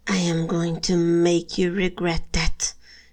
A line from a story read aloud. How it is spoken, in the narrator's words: she hisses